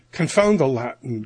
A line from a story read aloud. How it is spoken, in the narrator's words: grumbled the sergeant